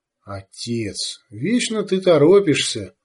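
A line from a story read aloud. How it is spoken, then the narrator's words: Calm. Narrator (Russian): сказала она спокойно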